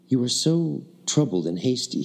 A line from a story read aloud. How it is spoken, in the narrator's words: said kindly